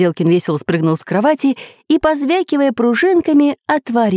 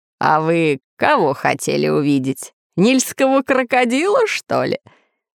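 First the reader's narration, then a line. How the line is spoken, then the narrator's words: Laughing. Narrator (Russian): Засмеялся профессор Пыхтелкин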